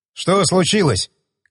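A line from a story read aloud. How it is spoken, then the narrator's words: Shouted. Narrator (Russian): крикнул подбежавший механик Серега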